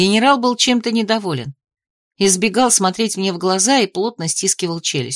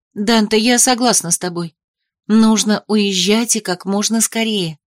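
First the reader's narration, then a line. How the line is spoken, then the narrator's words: Soft, gentle. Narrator (Russian): сказала я мягко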